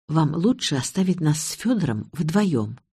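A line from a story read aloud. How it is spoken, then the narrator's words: Quiet. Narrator (Russian): я тихо сказала ей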